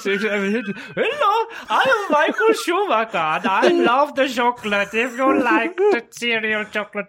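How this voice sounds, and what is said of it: Comical exaggerated German accent. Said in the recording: “He's German. ... German accent. ... comical springtime for Hitler voice”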